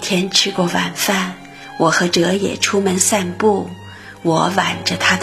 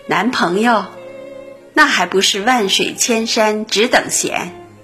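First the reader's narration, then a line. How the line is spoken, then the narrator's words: Laughing. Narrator (Chinese): 我也笑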